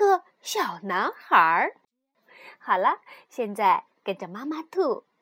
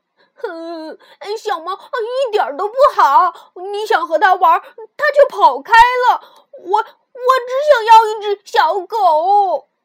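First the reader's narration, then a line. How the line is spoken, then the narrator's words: Crying out. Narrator (Chinese): 鲁迪哭喊道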